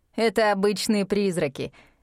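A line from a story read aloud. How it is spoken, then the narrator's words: Laughing. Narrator (Russian): рассмеялся мистер Кадо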